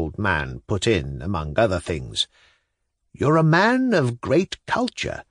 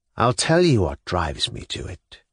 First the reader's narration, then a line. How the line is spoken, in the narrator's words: he said sullenly